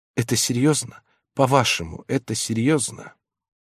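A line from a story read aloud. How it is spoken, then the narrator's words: Timid question. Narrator (Russian): она робко спросила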